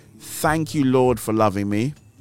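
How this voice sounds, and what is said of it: Slow, deliberate speech. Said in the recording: “I will say it slowly.”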